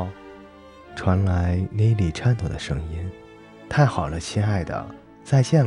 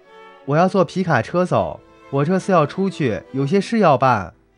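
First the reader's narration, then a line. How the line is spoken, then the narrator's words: Shouting. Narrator (Chinese): 罗莉喊道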